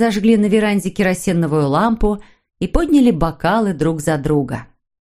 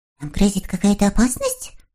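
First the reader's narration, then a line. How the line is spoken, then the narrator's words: Whisper. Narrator (Russian): прошептал Сниф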